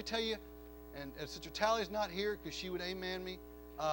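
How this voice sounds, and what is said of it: Usual voice. Nothing is said of it.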